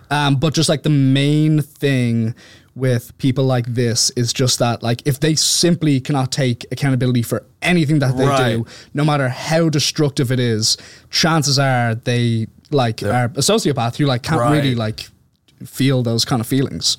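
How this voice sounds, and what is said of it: Irish accent. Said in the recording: “your Irish accent ... It sounds so elegant”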